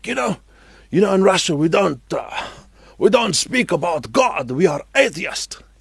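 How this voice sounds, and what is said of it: Put-on Russian accent. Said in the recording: “I'm trying to do a Russian accent. I know this is probably very amusing.”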